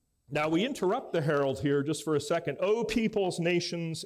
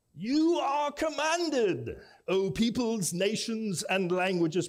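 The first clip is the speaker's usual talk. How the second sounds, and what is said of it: Bad put-on British accent. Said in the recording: “bad British accent”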